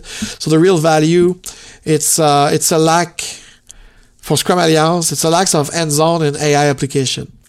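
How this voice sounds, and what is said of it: Sick, rough noisy voice. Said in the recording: “I'm sorry, yes, I'm sick ... sorry for my voice if it's noisy a little bit”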